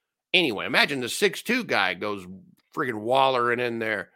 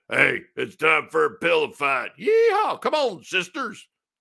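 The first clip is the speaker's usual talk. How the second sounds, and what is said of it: Put-on Southern accent. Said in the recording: “why do those characters always have Southern accents?”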